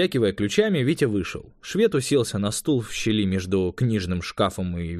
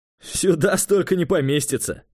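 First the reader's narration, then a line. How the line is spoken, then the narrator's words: Chuckling. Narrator (Russian): хохотнул тот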